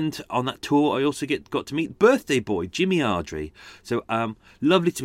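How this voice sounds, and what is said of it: Usual voice. Nothing is said of it.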